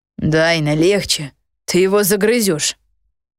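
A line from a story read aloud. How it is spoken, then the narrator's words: Growl from behind. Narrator (Russian): рыкнул Гидеон сзади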